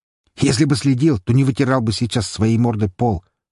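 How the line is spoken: Snorting, big man. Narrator (Russian): хмыкнул здоровяк

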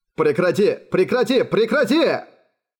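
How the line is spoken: Yelling. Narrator (Russian): орал Гаури

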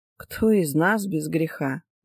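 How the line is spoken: Sighing. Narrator (Russian): вздохнула Хельга Саар

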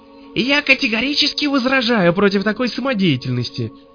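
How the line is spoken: Shrieking. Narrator (Russian): визжал Свиридов

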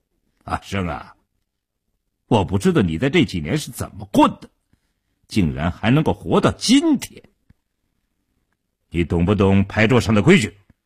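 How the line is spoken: Suddenly cold. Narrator (Chinese): 一直笑容可掬的傻彪当即翻了脸，冷冷地说道

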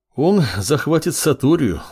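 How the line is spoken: Sigh. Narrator (Russian): вздохнул Уринай

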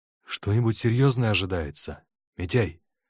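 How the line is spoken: Quiet question. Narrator (Russian): тихо спросил Корчагин

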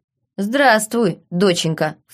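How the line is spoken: Snort. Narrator (Russian): фыркнул капитан

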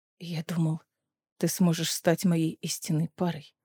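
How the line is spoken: Hoarse reply. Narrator (Russian): хрипло ответил Ларкан

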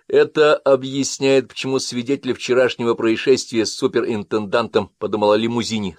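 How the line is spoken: Plain. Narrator (Russian): сказал Линли

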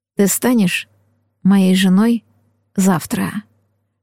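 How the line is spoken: Whispered. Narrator (Russian): шептал жених

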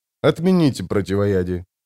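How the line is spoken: Calm command. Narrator (Russian): спокойно распорядился граф

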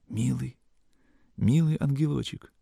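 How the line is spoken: Anxious, rapturous whisper. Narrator (Russian): Полный недоумения, тревоги, непонятного восторга, Сашка шептал

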